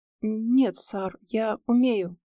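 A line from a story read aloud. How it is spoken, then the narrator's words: Strained reply, young man. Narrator (Russian): выдавил из себя парень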